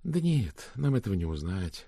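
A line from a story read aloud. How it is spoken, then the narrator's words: Muttered. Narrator (Russian): пробормотала Ирмгард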